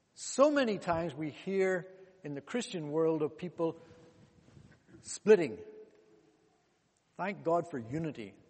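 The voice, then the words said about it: Congolese-accented English. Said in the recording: “give you a chance to hear my accent... where's this fella come from? I was born in Congo, DRC.”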